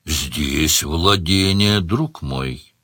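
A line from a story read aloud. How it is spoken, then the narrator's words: Gentle interruption. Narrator (Russian): мягко прервал его Сварог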